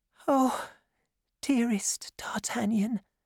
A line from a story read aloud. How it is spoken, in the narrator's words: she whispered